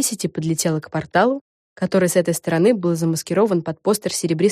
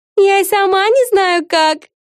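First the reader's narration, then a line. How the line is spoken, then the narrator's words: Laughing. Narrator (Russian): засмеялась Эгги Хуф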